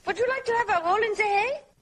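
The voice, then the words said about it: Fairly good put-on German accent. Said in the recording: “Terry Garr with, I think, actually quite a good German accent”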